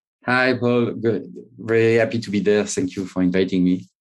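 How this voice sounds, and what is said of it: French accent. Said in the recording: “your accent may give it away ... from my accent, you can see that I'm French, no doubt.”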